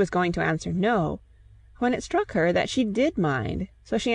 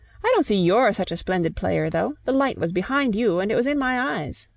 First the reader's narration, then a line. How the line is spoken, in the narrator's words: She added merrily